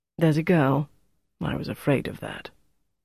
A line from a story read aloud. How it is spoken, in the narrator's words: At last she sighed and said